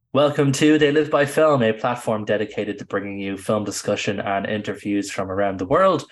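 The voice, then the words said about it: Sick, ill-sounding voice. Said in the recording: “a very sick ... as you can probably tell by my voice”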